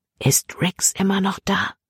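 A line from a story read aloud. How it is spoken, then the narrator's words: Whisper. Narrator (German): flüsterte Libby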